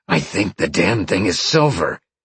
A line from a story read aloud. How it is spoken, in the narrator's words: Sean growled